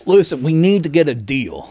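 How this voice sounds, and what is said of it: Attempted Russian accent. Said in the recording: “That was not a Russian accent.”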